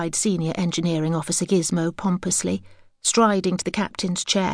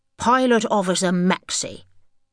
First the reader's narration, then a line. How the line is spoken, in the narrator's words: snipped Gizmo irritably